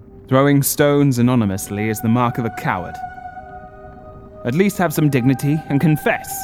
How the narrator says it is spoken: shouted

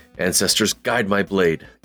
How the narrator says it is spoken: Joff is going to mutter under his breath

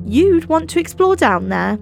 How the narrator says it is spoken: declared Mark, laughter in his voice

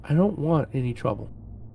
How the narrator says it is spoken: The hunter called out in a half-whisper

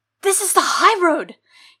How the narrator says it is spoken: gasped, with accusation

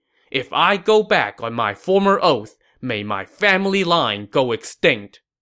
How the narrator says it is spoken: pledging

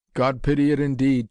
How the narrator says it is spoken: chuckled Singe exultantly

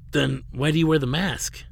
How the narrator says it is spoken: he began in his newly hoarse voice

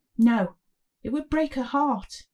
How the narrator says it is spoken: David pleaded

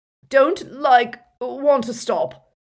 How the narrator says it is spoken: moaned Dumbledore

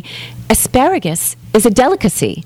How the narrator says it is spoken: she exclaiming

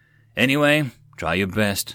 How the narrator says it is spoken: Sath sighed

